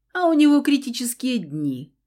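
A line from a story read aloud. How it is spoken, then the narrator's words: Chuckling from behind. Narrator (Russian): Хохотнул за спиной Фауст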